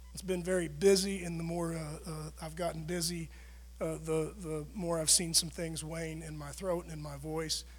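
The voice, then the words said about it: Raspy, strained voice. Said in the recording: “sorry about my voice. It sounds a little raspy.”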